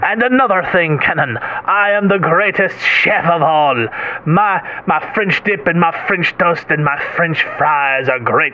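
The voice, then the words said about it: Put-on accent that wavers. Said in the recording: “my accent goes in and out... It has only gotten stronger”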